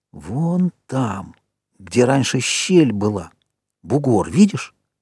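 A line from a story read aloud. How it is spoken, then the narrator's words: Whispering in ear. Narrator (Russian): губы Джека шептали в ухо Ральфу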